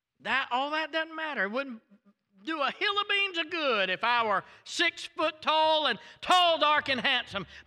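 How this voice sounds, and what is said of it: Thick southern American accent. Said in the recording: “a thick southern accent”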